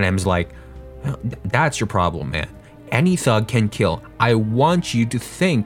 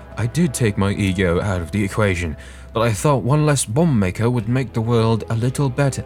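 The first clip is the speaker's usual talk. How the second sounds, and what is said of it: Put-on accent. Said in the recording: “I'm gonna stop doing the accent”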